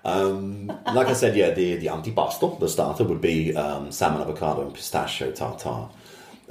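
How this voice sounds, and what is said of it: Italian accent. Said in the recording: “your Italian accent. It sounds so good.”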